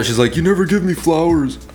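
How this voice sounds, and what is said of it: Mimics a woman's voice. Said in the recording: “did her voice like that ... I make voices for women ... like a really specific... voice ... I don't sound like a fucking bird”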